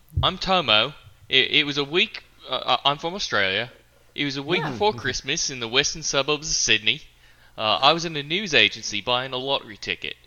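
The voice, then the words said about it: Put-on Australian accent. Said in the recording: “my Australian accent”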